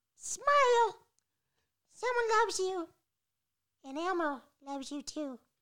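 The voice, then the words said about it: Elmo impression. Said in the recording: “Good Elmo voice. ... That was a good Elmo voice.”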